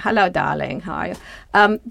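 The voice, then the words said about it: Imitates another person's accent. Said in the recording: “You do a pretty good accent... I do a good accent.”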